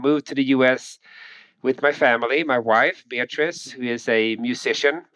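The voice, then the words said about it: Swedish accent. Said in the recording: “people can probably already tell I have an accent. So I'm from Sweden, born and raised in Sweden”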